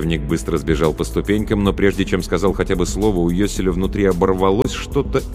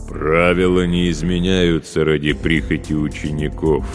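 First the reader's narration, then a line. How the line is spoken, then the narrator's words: Booming from above. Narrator (Russian): прогудело над головой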